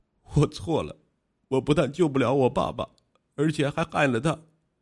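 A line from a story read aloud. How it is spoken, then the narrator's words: Wailing, sobbing. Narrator (Chinese): 陆勇嚎啕大哭，说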